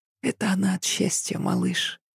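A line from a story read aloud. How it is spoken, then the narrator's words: Barely audible, into ear. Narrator (Russian): едва слышно проговорила Ася на ухо дочери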